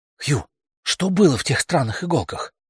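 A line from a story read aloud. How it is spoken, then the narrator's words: Repeated whisper. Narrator (Russian): уже в который раз шепотом спросила она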